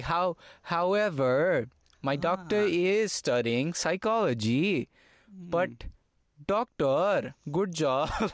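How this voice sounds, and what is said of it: Imitated thick foreign accent. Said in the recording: “she has this amazing thick accent ... she has like this essay form of English ... like there was a tone to it”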